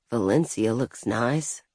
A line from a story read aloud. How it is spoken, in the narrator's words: He'd murmured